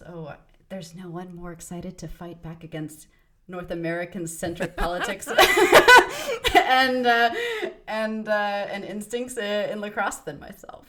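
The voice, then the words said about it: American accent, slightly Canadian-sounding. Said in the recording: “I know I sound quite American ... you've got a strong American accent, but you can tell it's not like American accent ... It's a bit European bland ... I actually sound more Canadian now”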